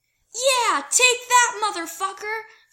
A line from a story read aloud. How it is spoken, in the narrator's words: Styles yells